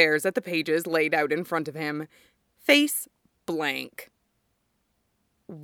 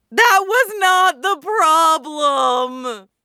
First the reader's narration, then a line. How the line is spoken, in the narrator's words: Mikurin screams